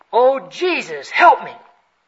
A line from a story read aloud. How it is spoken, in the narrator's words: she cried out